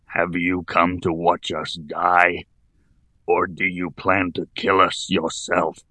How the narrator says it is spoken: he moaned hoarsely

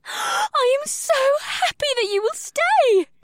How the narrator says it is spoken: Ibsith giggled

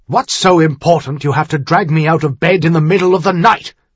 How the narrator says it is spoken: Duke Blackwater demanded irritably

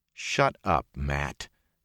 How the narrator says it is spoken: Perrin said calmly

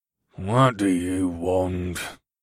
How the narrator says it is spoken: he rumbled

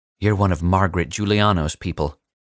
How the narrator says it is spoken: he said

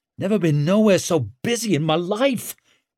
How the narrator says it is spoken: gasped Tallow

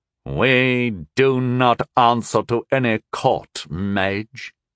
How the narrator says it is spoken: sneered the half-eared man

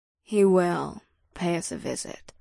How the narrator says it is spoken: Ada said in a grave tone

